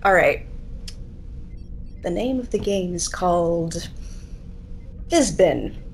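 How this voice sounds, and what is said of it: Captain Kirk impression. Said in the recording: “your best Captain Kirk impression”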